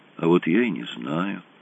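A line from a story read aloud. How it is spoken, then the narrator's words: Thoughtful. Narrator (Russian): задумчиво сказал Хог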